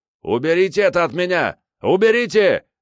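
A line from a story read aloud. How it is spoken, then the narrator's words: Frantic scream. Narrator (Russian): заорал он не своим голосом, как только смог дышать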